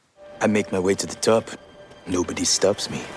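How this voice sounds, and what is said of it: Slightly wobbly French accent. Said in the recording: “Joseph Gordon-Levitt playing Philippe Petit with a slightly wobbly French accent”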